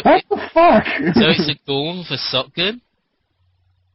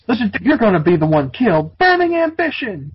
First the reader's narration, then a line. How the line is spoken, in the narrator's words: screamed as he slashed the monster with his sword